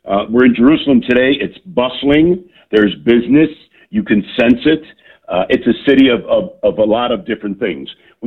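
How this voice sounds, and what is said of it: Loud voice, American accent. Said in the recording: “with my loud voice, and they hear the American accent”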